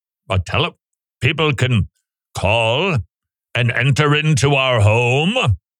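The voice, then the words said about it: Imitates a butler's voice. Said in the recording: “That's my impression of the butler.”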